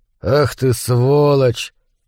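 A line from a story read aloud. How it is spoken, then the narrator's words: Through gritted teeth. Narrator (Russian): процедил сквозь зубы Кип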